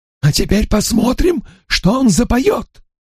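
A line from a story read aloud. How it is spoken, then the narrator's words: Exclaiming. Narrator (Russian): воскликнул мистер Норрелл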